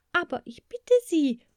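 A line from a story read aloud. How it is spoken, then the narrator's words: Called out. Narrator (German): rief Maja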